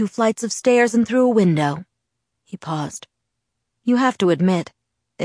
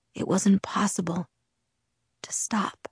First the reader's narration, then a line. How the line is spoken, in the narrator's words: he whispered